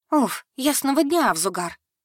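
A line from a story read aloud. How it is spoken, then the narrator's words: Released student's plaintive squeak. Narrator (Russian): жалобно пискнула выпущенная из тисков медведя-студентка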